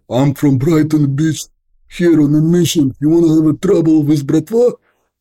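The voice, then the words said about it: Bad fake Russian accent, aggressive. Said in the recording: “bad Russian accent that I faked ... Russian accent," and I start faking it ... kind of very aggressive”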